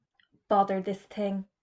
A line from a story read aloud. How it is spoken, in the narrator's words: muttered Mr